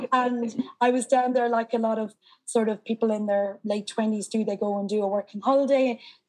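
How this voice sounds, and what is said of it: Irish accent. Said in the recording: “I'm Irish. You might be able to tell from the accent”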